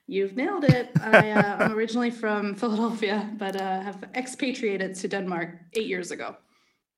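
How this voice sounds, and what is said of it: American accent. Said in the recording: “That sounds like an American accent.”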